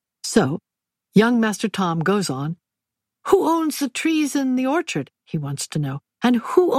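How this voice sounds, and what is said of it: Usual voice. Nothing is said of it.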